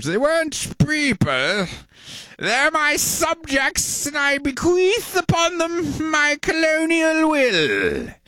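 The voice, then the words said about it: Pompous king character voice. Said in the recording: “my impression of, I think you're giving me a script for King George ... Does that sound like what a king would sound like? ... I'll keep working on the voices.”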